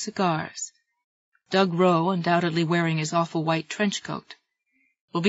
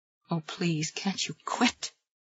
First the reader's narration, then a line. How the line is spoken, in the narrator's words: Jesse moaned